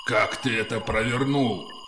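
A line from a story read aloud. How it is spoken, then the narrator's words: Growl. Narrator (Russian): прорычал он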